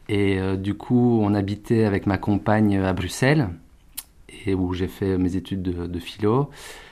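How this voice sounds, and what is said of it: Belgian French accent. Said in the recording (French): “je suis belge, vous l'entendrez à mon accent.”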